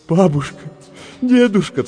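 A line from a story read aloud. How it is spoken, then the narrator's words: Sobbing. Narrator (Russian): всхлипывал Дэвид Люстик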